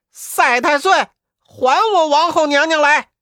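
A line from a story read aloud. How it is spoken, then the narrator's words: Repeated shouting. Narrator (Chinese): 悟空连叫两三遍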